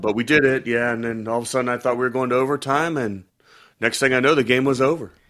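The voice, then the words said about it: Congested, clogged-up voice. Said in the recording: “your voice is a little under the weather ... just a little like clogged up”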